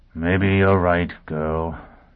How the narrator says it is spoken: he said wearily

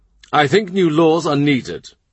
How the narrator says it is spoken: Rich says

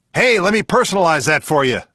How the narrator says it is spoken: the author shouted after him

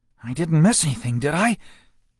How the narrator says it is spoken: she asked breathlessly

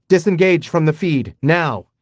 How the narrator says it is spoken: I yelled

